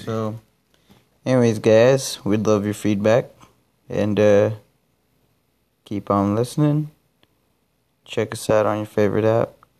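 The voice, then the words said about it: Flat, monotone, tired voice. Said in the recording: “I'm too monotone. I'm not excited right now. ... I'm tired. It's like 1:30 in the morning”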